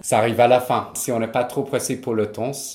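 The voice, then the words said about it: Slight English accent in French. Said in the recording (French): “même si vous parlez super bien, vous avez heureusement encore ce petit accent ... vous avez un petit accent”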